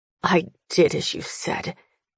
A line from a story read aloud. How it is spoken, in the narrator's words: he mutters to no one